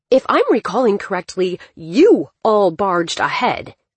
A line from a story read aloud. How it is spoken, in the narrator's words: Dylan spat